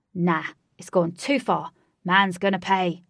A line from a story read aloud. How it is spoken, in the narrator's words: snapped Flash